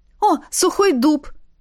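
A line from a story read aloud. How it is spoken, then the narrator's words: Cried out. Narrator (Russian): вскрикнула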